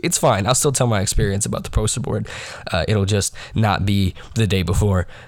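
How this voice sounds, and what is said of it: Slightly raspy voice. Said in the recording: “why I sound a little raspy ... I did come down with a bit of a cold ... a cold that is making my throat hurt”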